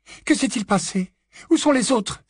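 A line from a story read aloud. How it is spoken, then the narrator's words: Exclaiming. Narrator (French): s'écria Mrs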